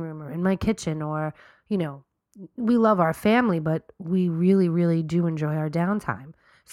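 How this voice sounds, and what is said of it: Deep, sick-sounding voice. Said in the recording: “I feel like I have to apologize for my deep voice. We're both sick as dogs.”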